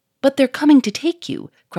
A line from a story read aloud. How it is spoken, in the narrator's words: cried Victor